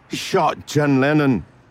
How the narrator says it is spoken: he yelled

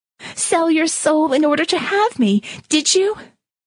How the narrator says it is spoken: She shouted at him

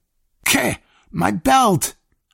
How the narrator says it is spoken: I choked

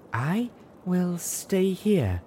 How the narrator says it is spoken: Velvet breathed weakly

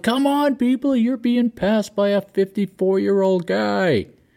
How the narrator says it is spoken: I yelled

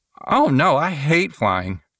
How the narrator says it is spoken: exclaimed

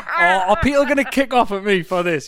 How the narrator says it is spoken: You laugh

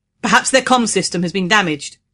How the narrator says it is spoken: he said in a loud voice to make himself heard over the wind

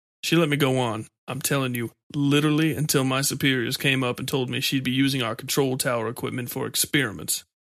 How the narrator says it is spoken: Comey said with a laugh

